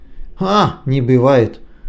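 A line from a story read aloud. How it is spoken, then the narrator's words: Bitter laugh. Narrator (Russian): Казбек горько рассмеялся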